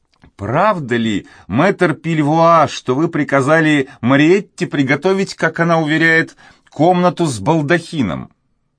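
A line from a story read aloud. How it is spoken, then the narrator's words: Elderly woman exclaiming. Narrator (Russian): пожилая женщина, маленькая и кругленькая, воскликнула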